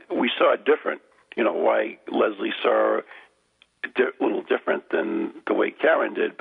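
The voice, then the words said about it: Strained, failing voice. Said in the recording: “I can barely talk. ... my voice is going to... ... Yeah, I can tell.”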